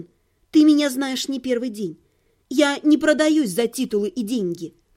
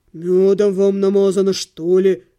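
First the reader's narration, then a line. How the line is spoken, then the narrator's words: Grumbling mutter. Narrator (Russian): пробурчал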